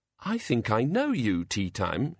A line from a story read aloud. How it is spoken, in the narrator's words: she said, as sweetly as she could for Banjo's sake